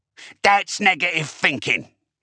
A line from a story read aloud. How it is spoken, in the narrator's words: he barked